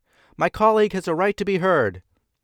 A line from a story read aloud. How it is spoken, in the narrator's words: George Ashman, a cotton Whig from Massachusetts, defended Wilson, shouting back